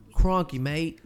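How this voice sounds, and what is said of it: Bad fake Australian accent. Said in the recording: “you need to stop with the accent. That's a very terrible accent”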